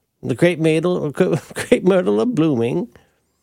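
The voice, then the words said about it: Imitates another person's voice. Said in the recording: “I'm doing Red Barber from the 1990s.”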